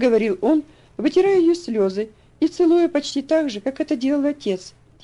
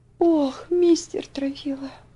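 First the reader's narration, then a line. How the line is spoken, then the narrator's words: Sobbing. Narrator (Russian): всхлипнула она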